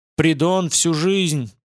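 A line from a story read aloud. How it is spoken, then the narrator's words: Shout while galloping. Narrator (Russian): прокричал он на скаку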